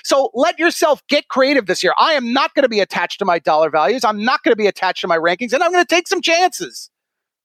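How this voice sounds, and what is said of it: Loud, heated, yelling delivery. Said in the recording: “You sound angry. Are you angry ... you're yelling ... I'm fired up ... You seem a little angry”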